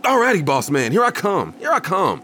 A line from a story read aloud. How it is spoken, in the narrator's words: I shouted back